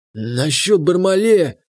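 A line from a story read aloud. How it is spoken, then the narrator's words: Husky voice. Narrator (Russian): прозвучал хрипловатый голос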